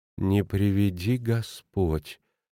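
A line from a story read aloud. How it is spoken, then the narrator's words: Sighing. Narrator (Russian): вздохнула опять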